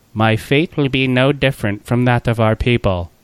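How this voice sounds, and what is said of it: Imitates another person's voice. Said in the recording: “Nailed the accent, mate. Nailed it. ... That was excellent Natalie Portman impression. ... that was just exactly like her. ... It was uncanny.”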